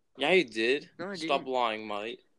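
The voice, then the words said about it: Poor put-on Australian accent. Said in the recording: “That is a terrible accent.”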